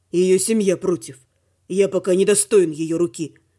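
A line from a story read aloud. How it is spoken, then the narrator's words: Gloomy remark. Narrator (Russian): мрачно заметил оборотень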